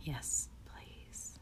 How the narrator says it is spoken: I whisper to the breeze

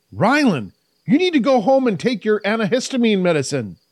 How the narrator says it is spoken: Kai yelled, realizing the seriousness of the situation

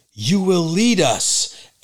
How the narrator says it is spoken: the other leader in the crowd yells

